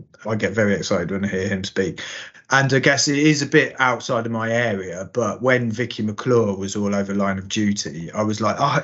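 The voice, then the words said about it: Northampton East Midlands accent. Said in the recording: “a Northampton accent ... Alan Moore, actually, is my accent ... East Mids accents”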